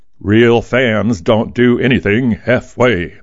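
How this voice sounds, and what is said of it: Football announcer voice. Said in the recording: “I said that in my football announcer voice.”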